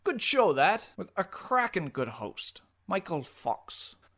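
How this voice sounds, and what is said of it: Fake English accent. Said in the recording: “your fake English accent”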